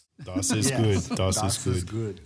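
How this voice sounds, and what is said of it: Put-on German accent. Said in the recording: “I love the German accent. It's very authentic.”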